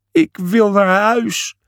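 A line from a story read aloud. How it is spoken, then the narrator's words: Sobbing. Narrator (Dutch): snikte Julius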